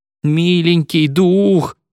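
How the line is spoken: Group moaning. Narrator (Russian): стонали спириты

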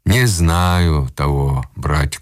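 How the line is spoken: Sighing. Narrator (Russian): сказал Копендюхин, вздохнув

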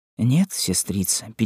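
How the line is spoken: Sad queen. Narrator (Russian): печально отвечала королева

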